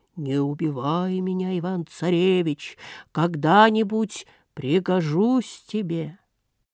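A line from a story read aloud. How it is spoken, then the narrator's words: Bear speaking in human voice. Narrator (Russian): медведь вдруг и говорит ему человеческим голосом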